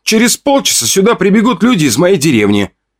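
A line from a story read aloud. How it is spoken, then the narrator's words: Shouting. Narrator (Russian): крикнул я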